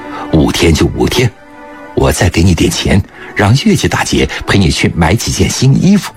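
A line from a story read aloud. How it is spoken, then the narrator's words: Smiling. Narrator (Chinese): 郭文云笑了笑说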